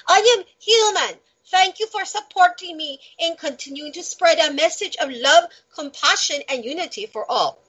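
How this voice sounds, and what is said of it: Semi-good put-on Brazilian accent. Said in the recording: “I should do a Brazilian accent, but I don't know if I can ... I think I did kind of a semi-good Latin twitch or twang there”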